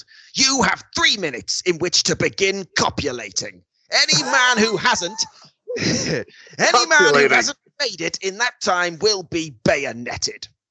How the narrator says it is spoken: Samurai snarled

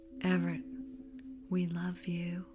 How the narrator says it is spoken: I spoke softly

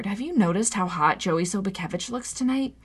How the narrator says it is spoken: murmured

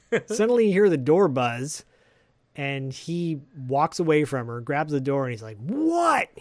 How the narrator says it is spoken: He yells at the door

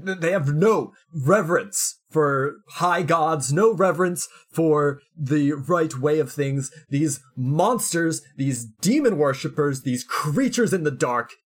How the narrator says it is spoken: he's screaming

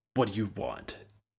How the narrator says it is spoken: Ward sneered from his bedroom

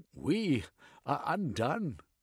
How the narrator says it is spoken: the king gasped

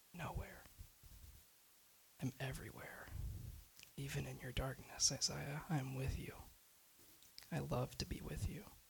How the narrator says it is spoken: A whispered reply

